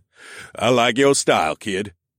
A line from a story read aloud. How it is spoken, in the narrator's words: Riggs grunted